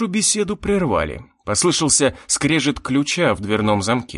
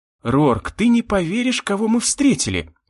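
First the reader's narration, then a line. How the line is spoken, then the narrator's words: Exclaimed. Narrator (Russian): воскликнула Мина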